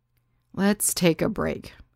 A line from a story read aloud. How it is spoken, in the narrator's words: sighed